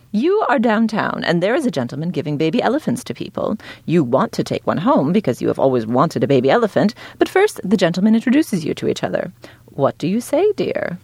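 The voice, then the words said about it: Snooty clipped Hollywood-British accent. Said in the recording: “I always try to read in a really snooty British accent ... I guess this isn't a British accent. It's sort of more like a clipped Hollywood thing.”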